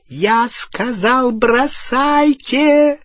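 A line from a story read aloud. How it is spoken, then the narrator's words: Shrieking. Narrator (Russian): провизжала Беллатриса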